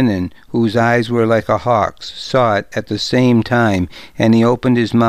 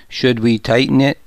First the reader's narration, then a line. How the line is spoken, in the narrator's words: asked